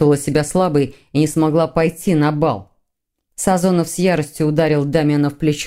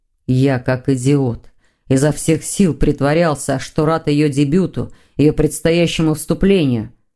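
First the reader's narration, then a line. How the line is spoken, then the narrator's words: Angry growl. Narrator (Russian): зарычал Сазонов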